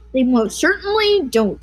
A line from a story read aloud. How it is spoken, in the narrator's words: cried Mugwump